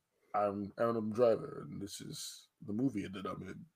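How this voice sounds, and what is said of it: Deep baritone imitation of another voice. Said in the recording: “my Adam Driver impression ... that actually was really good ... that baritone was very, very elite ... put some bass in your voice”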